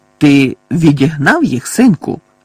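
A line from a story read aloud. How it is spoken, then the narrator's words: Loud question. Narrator (Ukrainian): голосно спитав явно прагнучи перевести розмову на доступний йому рівень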